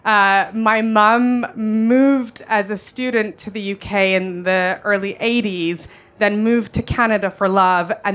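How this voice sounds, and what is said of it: Noticeable non-London accent. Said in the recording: “I'm sure you can hear my accent. Despite living in Northwest London since I was 9 years old, I haven't gotten rid of this accent.”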